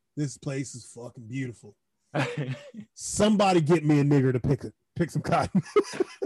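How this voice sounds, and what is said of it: Southern American redneck accent. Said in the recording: “You gave this nigga an American accent ... you made him sound like a redneck from Tennessee ... Be like, Hank Hill”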